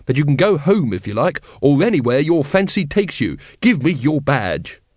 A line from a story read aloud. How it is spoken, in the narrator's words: he snapped